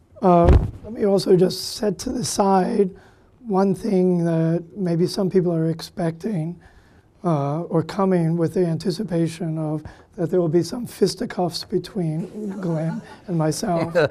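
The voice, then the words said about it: Hoarse voice from laryngitis. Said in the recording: “I have laryngitis ... As I talk, my voice should loosen up a little bit.”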